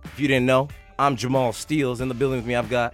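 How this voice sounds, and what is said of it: Slightly raspy voice. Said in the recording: “My voice is a little less raspy.”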